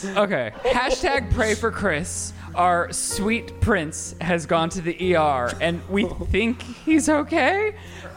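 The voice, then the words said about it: Mock serious news voice. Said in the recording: “put on your serious voice.”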